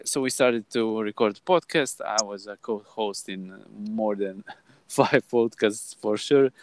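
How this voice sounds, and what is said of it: Croatian accent in English. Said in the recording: “As you can hear by my accent, my native language is Croatian. ... you will struggle a bit with my English”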